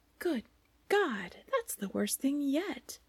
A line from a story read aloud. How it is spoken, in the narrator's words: cried the first raven